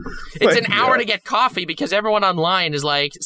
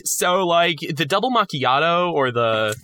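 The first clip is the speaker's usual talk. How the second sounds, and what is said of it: Put-on LA surfer-dude accent. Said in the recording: “why did your accent change for that? ... in LA like, is a surfer, dude. Okay, they're all surfers.”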